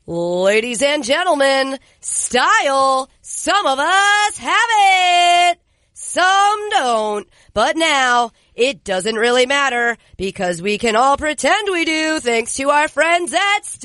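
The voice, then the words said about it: Game show host announcer voice. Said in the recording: “do the ad read like you are a game show host”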